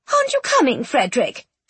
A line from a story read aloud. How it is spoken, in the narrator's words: she exclaimed